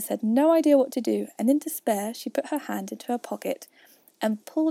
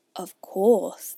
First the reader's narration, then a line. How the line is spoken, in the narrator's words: the dodo replied very gravely